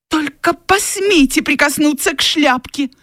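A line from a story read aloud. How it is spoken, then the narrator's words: Exclaimed. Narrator (Russian): воскликнула Скарлетт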